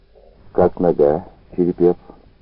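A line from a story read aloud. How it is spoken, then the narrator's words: Plain. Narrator (Russian): спросил Плотников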